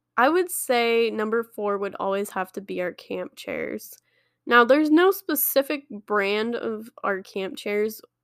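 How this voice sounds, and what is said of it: Voice sounds like a cold. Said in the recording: “I have a cold, so if you're hearing me”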